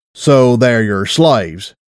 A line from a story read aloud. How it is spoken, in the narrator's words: said coldly